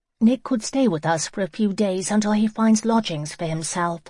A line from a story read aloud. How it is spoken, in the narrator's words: Hannah said